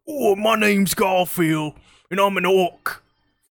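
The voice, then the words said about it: Garfield impression in Australian accent. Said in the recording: “the Garfield impression ... I had an impression of Garfield because the way his text was stylized was like super Australian in my mind ... that's Australian to me”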